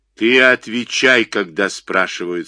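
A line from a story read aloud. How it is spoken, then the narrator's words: Menacing. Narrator (Russian): сказал грозно Климов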